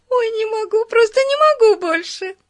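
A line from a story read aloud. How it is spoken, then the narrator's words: Giggling woman. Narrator (Russian): хихикала она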